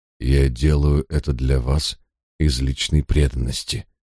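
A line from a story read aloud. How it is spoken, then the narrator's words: Quiet reply. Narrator (Russian): тихо ответил я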